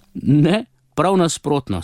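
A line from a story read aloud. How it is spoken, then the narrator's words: Father laughing. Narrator (Slovenian): se je smejal očka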